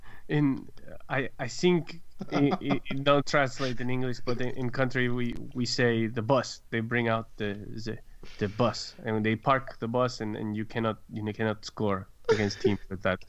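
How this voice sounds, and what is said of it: Imitates another person's accented voice. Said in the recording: “Additional Mourinho impressions by you is much appreciated ... Do the accent.”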